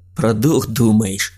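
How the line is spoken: Snorting. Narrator (Russian): хмыкнул он

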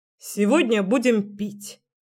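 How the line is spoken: Solemn announcement. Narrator (Russian): торжественно сообщил Артём

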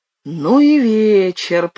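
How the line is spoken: Groaning. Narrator (Russian): простонал он

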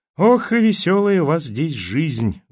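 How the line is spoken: Sad young man. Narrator (Russian): грустно парень

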